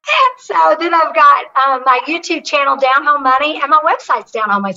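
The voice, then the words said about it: Southern American accent. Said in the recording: “you better like a Southern accent because I read it”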